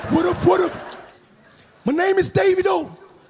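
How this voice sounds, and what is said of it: Put-on American accent. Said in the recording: “Anytime they do Yankee, they get foreign accent all of a sudden”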